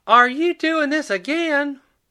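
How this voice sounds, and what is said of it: Yelled line with a twang. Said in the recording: “she yelled with a twang”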